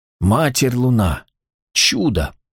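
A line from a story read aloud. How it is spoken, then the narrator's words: Breathed, barely voiced. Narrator (Russian): одними губами выдохнул жрец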